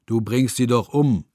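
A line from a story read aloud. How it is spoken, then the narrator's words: Someone calling out. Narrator (German): ruft ein dritter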